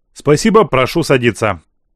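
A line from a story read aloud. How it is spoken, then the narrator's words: Dry, curt statement. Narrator (Russian): сухо произнес император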